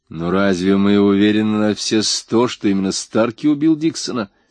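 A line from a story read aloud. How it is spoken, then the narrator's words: Plain. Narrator (Russian): спросил Рек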